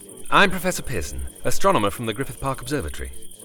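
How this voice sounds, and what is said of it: British accent. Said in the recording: “Oh, and a British accent. People always sound smarter with a British accent.”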